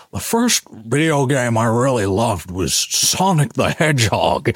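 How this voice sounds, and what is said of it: Imitates another person's voice. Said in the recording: “That was such a good impression as well.”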